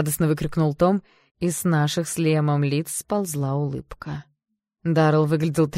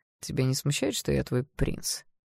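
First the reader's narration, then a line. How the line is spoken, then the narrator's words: Silky insinuating question. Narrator (Russian): вкрадчиво спросил Даррелл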